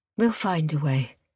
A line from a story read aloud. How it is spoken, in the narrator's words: replied Sophia, though her voice betrayed a quiver of uncertainty